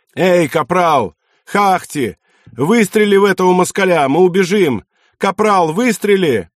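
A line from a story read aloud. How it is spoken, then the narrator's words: Shouting into the forest. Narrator (Russian): Финны кричали в гущу леса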